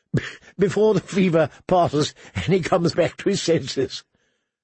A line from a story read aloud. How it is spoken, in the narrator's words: suggested Harwin, chuckling